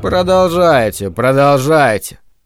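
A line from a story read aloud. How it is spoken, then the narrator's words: Tired. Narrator (Russian): устало сказал Спенглер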